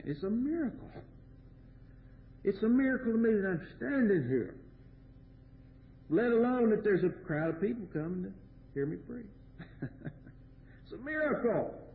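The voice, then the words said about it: Kentucky accent. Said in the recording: “this vain babbler with a Kentucky accent”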